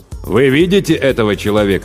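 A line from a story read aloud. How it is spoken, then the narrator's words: Plain. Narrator (Russian): спросил главарь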